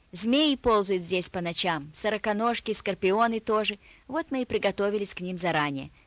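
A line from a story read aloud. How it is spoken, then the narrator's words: Calm. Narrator (Russian): спокойно ответил Миша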